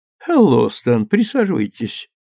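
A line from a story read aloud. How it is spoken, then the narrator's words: Calm. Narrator (Russian): спокойно сказала она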